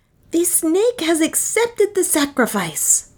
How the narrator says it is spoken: cried Nam again

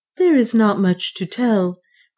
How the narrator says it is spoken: replied Juana, heaving a sigh of relief

